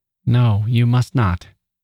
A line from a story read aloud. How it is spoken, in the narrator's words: said nervously